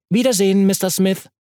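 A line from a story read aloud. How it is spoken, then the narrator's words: Calling out. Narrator (German): rief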